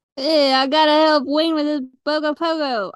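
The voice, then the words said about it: Italian mobster accent. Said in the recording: “with an Italian mobster accent”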